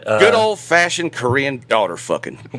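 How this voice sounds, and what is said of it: Put-on American Southern accent. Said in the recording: “as spoken with an American Southern accent”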